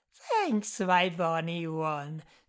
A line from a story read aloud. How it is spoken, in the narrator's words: said the woman with an unnerving laugh